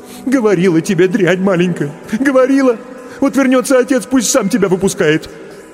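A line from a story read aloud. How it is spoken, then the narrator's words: Sobbing mother. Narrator (Russian): Всхлипывала матушка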